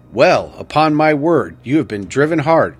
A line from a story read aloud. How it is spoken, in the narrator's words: exclaimed Dr